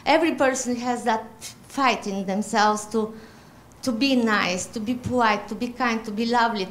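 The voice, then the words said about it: Polish accent. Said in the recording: “First of all, the accent ... I'm from Europe. ... No, Poland.”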